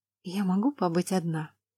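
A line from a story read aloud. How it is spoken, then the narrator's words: Quiet but firm question. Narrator (Russian): Тихо, но твердо спросила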